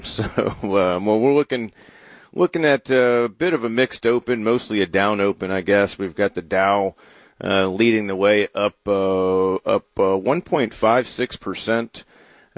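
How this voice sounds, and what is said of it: Hoarse, sore-throated voice. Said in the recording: “I've got a sore throat ... Not good for the radio or the podcast program.”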